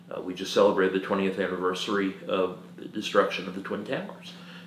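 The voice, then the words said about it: New York accent. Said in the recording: “In case anyone hasn't figured out from the accent, I'm not from around here, as they say. I'm a New Yorker”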